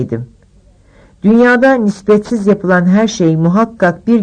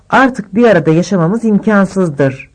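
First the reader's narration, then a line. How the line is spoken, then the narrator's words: Murmuring. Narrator (Turkish): diye mırıldandı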